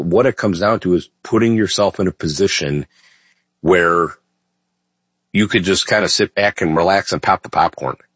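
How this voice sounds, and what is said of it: Scratchy, slightly rough voice. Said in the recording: “my voice may be a little scratchy today, folks ... I'm not my normal self”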